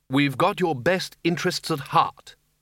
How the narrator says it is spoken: said Ridcully

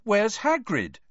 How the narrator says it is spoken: Harry repeated loudly

